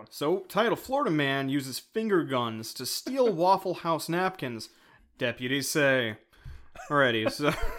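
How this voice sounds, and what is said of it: News anchor reading voice. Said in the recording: “Good news voice there.”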